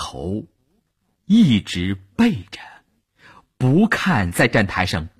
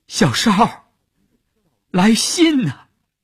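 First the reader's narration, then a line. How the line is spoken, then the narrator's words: Tearful shout, chasing. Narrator (Chinese): 乌云的眼圈红了，他追着车喊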